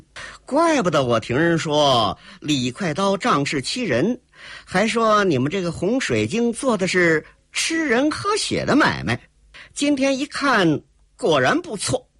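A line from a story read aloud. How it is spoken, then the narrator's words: Girl's cold laugh. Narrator (Chinese): 黑衣少女冷冷一笑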